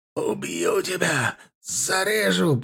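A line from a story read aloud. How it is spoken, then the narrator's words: Hoarse rasp. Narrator (Russian): прохрипел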